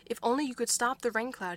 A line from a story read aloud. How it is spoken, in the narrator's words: cried back